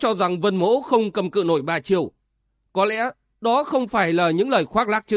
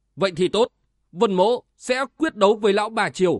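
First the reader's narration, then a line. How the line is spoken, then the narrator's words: Stern. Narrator (Vietnamese): Vân Giật Long nghiêm giọng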